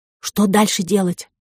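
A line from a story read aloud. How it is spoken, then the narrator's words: Whisper. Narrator (Russian): шепнула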